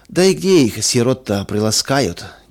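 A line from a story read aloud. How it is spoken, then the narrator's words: Heavy sigh. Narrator (Russian): тяжело вздохнул третий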